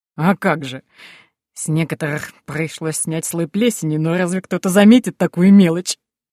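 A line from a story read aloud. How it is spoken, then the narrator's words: Laughing. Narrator (Russian): засмеялся Пол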